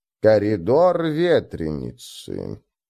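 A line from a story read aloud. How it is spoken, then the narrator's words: Drawn-out, hopelessly sad. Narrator (Russian): протянула Фрок с какой-то безнадежной печалью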